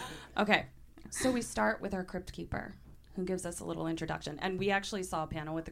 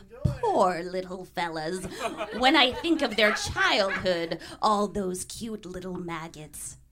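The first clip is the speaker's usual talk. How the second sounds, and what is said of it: Crypt Keeper character voice, poorly done. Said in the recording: “do his voice, but now I know how poorly I was doing his voice”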